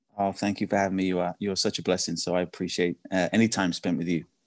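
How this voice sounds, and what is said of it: British accent. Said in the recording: “Did you hear his accent? ... British accent”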